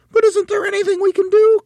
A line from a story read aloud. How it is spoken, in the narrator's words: cried Mrs